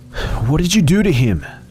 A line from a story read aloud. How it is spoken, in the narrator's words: I gasped